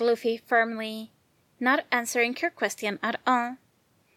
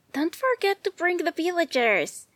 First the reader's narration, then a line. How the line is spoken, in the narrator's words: Nami shouted back, cheerfully